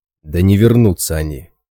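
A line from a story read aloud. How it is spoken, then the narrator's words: Heated snapping retort. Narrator (Russian): запальчиво огрызнулся Раз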